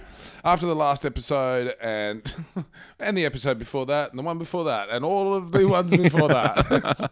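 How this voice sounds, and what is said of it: Tired, slightly worn voice. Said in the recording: “I am a little tired and my voice is a little bit used. I've been doing three shows a night”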